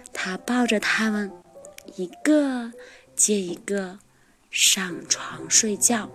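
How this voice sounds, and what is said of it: Soft whispered line. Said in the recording (Chinese): “黛拉小声说”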